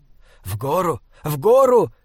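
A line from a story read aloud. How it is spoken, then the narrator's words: Hoarse shout, off to side. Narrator (Russian): хрипло кричал Бинабек где-то справа от Саймона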